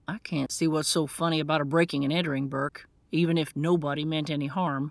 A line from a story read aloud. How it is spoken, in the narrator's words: Grant snapped